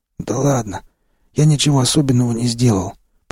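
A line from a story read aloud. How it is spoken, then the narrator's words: Hoarse, anger forgotten. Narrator (Russian): прохрипел я, забыв о своей недавней злости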